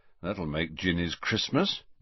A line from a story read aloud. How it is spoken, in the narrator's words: muttered Fred